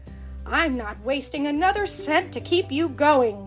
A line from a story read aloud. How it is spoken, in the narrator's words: Scrooge growled